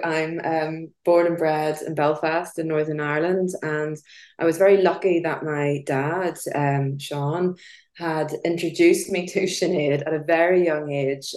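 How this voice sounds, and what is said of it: Irish accent. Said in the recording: “as you can probably hear by my Irish brogue”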